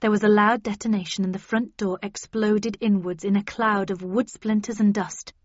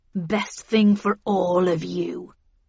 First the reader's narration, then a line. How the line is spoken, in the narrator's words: growled Heathcliff